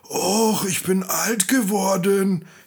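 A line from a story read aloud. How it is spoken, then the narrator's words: Breathless whining dog. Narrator (German): jammerte der Hund atemlos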